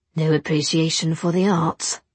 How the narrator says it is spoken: Will murmured

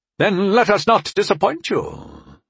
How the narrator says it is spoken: Sire Kusi said in his rattling voice

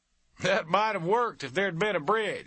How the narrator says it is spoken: Soupy Jones said, laughing

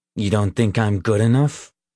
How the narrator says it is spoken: Leroy asked coldly

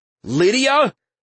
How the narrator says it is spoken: Verudin's voice called out incredulously

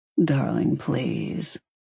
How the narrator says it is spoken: he murmured

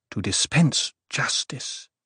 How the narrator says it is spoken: she murmured

